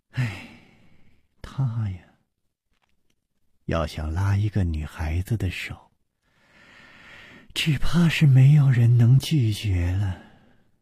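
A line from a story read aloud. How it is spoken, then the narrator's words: Sighing. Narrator (Chinese): 苏蓉蓉叹道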